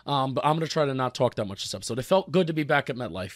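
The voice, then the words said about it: Voice in poor, rough condition. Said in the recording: “sorry for my voice. This is kind of terrible.”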